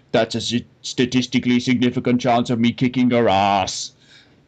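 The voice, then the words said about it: Poor imitation of another person's voice. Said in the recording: “my Arnie impression is pretty poor”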